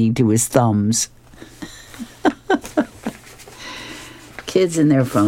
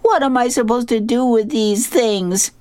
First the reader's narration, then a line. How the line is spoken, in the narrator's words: suddenly screams out